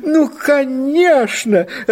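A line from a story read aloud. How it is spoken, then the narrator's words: Joyful exclamation. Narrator (Russian): радостно воскликнула миссис Пингвин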